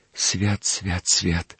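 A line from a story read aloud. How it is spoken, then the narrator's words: Whispering. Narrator (Russian): шептал он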